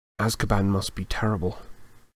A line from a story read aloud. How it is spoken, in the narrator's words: Harry muttered